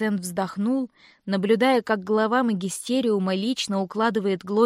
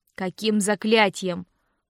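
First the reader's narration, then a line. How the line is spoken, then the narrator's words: Grumbling. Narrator (Russian): проворчал Винс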